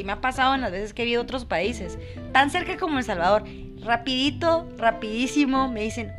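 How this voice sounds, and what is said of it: Guatemalan Spanish sing-song accent. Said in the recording (Spanish): “el acento de un guatemalteco ... Nosotros tenemos un cantadito súper particular ... es un cantado guatemalteco”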